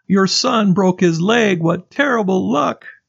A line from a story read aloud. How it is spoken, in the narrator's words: The villagers cried